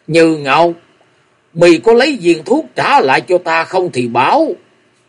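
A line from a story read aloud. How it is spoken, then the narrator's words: Irritable, loud. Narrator (Vietnamese): Hàn Công Công lại gắt gỏng nói ỏm lên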